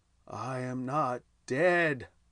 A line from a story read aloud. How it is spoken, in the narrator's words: I moaned